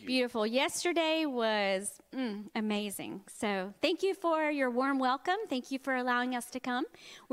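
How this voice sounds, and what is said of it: Southern American accent. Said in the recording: “I have a Southern accent.”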